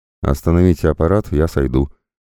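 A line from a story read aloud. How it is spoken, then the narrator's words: Snorting engineer. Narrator (Russian): хмыкнул борт-инженер, капитан Юрий Захаров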